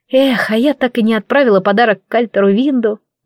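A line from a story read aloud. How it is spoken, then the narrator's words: Sigh. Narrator (Russian): вздохнула я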